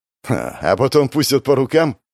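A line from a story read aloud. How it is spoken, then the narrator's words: Skeptical snort. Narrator (Russian): хмыкнул Гоша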